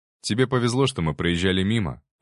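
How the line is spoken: Calm reply. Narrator (Russian): ответил я спокойно

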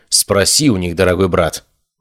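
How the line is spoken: Cold female reply. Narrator (Russian): холодно ответила девушка

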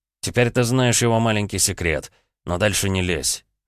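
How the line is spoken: Cold. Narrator (Russian): холодным голосом ответил он

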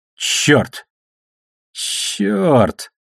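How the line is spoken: Strained voice through teeth. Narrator (Russian): сдавленным от перегрузки голосом процедил Алекс

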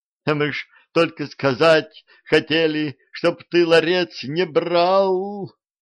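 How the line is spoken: Spirit wailing. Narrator (Russian): взвыл один из духов

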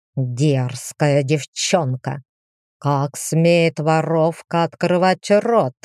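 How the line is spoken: Furious hiss. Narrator (Russian): Побелев лицом, прошипел

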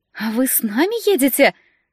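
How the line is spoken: Joyful question. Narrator (Russian): радостно спросила Валина

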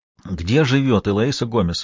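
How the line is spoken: Breathless man. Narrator (Russian): выдохнул он

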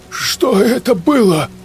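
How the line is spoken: Trembling voice. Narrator (Russian): дрожащим голосом спросил Сергей

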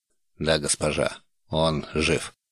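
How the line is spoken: Calm reply. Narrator (Russian): спокойно ответил Тарш

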